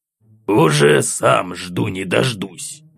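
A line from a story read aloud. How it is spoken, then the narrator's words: Angry old man grumbling. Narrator (Russian): Злобно буркнул дед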